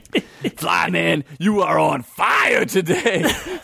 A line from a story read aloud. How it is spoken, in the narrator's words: Sid yelled